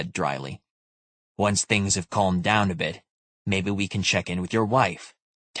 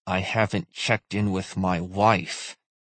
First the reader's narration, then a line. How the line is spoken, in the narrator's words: he said through gritted teeth